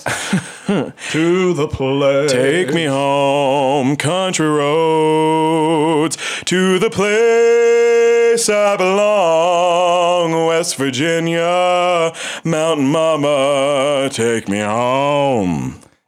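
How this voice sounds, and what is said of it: Sings in a butch voice. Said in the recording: “Can you sing a little bit in your butch voice? ... Too butch.”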